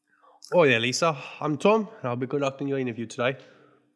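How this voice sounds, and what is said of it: Put-on British-Australian mixed accent. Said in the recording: “I'll do British and Australian. It'll float between the two.”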